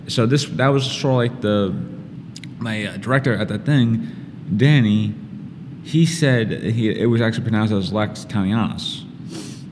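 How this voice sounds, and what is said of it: Strong Brooklyn accent. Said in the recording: “as someone who's from Brooklyn and has a very bad accent speaking. A lot of my words just comes up very jumbled up ... that little Brooklyn in there”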